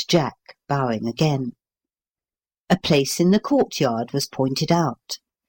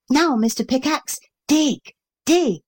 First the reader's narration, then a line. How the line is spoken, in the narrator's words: cried